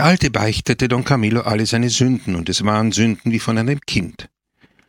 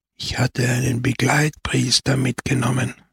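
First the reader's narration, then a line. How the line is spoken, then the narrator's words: Old man's whisper. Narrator (German): flüsterte der Alte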